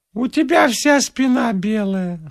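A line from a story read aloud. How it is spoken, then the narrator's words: Gramophone-like voice. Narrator (Russian): сказала Элочка граммофонным голосом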